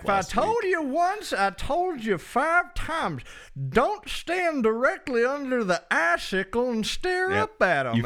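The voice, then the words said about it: Toothless old prospector voice. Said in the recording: “You managed the accent. It was an old prospector. ... Like didn't have any teeth. ... I could hear the gums. ... toothless accent is pretty good. Loud gums.”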